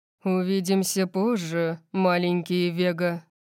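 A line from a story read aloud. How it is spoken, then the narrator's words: Purring. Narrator (Russian): промурлыкал он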